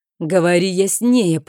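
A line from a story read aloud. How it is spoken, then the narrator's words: Through gritted teeth. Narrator (Russian): процедил барон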